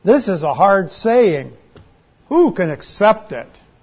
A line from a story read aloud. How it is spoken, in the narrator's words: grumbles